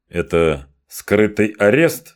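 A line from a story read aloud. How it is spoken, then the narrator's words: Plain. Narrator (Russian): спросил я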